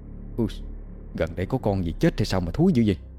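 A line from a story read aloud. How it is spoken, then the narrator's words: Sniffing, muttering. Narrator (Vietnamese): Tí khịt mũi lẩm bẩm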